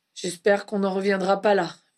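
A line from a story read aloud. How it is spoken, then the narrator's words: Murmured. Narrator (French): murmura Harry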